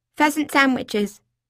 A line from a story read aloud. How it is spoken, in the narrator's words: I blurted suddenly, risking all